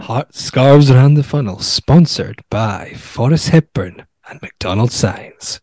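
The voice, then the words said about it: Seductive put-on American accent. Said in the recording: “Seductively? ... Why did you do it in an American accent?”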